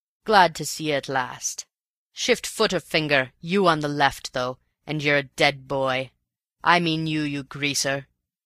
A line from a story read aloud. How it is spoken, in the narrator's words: he roared out at Raffles